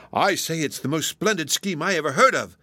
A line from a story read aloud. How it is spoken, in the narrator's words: cried Mark, jumping from his chair in his excitement